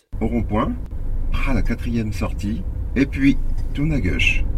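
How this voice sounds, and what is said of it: Ch'ti northern French accent. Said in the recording (French): “L'accent Ch'timi vous accompagne à tous les instants.”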